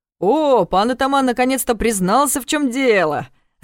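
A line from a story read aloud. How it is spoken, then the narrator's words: Roaring with laughter. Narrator (Russian): расхохотался Иван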